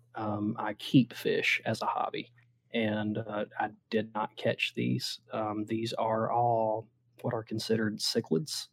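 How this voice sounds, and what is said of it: Southern US accent. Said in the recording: “my Southern hick ass derp accent”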